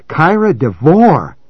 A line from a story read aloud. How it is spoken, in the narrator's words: Maddie cried, looking at John apprehensively